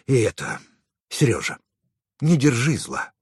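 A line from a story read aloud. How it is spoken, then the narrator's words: Sighing. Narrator (Russian): Он вздохнул и добавил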